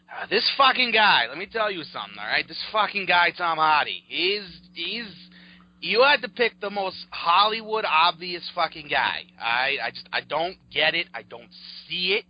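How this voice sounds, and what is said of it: Thick Boston accent. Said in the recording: “your thick-ass Boston accent”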